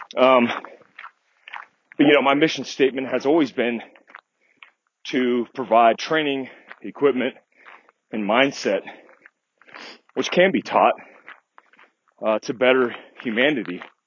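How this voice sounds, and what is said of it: Out of breath, panting speech. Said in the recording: “I'm out of breath right now. I'm like walking up a 45-degree hill right now.”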